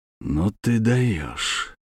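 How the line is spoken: Quiet. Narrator (Russian): сказал он тихо

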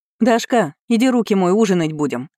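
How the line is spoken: Mother shouting over sizzling. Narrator (Russian): крикнула мать, перекрывая потрескивание масла на сковородке

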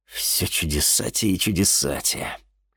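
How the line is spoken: Wry snort. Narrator (Russian): хмыкнул чернокнижец

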